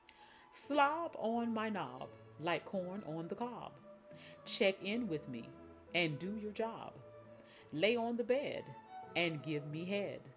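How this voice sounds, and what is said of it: Proper professional office voice. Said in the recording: “we read them in our office voice, our professional voice, accent, whatever, proper”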